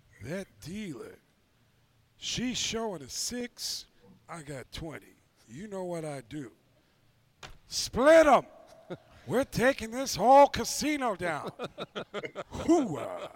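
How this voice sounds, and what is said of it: Imitates another person's voice. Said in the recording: “my impression of Dan Campbell sounds like Al Pacino ... it sounds a lot like Al Pacino and not Dan Campbell”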